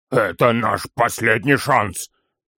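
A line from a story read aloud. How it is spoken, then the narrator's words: Hoarse. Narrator (Russian): хрипло произнес Торин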